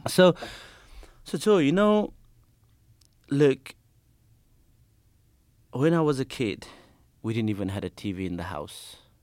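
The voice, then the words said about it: Thick accent. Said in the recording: “a bit of thick accent ... I thought you were saying flaming.”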